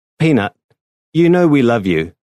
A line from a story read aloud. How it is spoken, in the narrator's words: Susan said